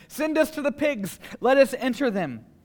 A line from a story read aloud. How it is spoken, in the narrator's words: they begged him, saying